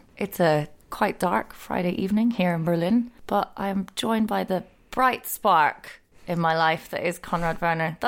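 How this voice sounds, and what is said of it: Soft, gentle, tired delivery. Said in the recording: “I felt like that was a very soft and gentle opening you did there. ... I am tired.”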